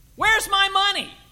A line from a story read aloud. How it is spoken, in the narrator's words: yelled the homeowner of the first house